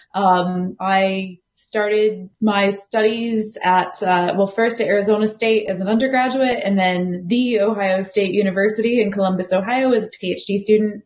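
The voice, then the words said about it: American accent. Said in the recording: “as as the accent probably betrays, I, I am American.”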